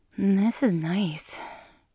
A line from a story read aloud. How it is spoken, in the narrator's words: she breathed